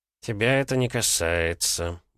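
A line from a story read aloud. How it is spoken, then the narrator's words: Masked grumbling mutter. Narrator (Russian): буркнул человек в наномаске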